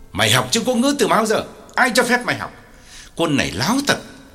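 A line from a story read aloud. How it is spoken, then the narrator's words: Harsh angry question. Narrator (Vietnamese): Ông gay gắt hỏi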